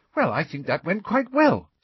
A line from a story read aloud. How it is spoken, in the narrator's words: said Hermione happily